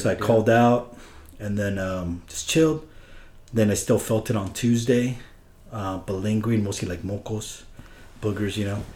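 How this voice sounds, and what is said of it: Sick, sore-throated voice. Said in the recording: “My throat was a little sore. And as you can kind of hear it in my voice right now.”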